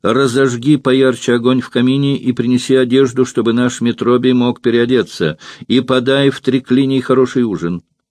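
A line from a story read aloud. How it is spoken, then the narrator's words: Calling out. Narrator (Russian): Эвтибида крикнула рабыне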